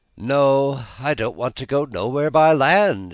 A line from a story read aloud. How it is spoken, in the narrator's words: she answered gaily